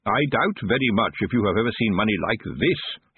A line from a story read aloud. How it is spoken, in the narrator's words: said merrily